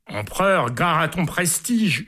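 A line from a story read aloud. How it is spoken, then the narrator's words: Crowd yelling from gallery. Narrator (French): hurlent les gars du poulailler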